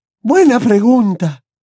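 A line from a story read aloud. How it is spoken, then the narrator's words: Shrill reply. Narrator (Spanish): repuso con voz estridente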